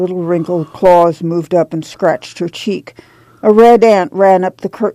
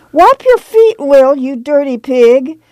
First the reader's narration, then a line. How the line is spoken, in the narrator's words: cried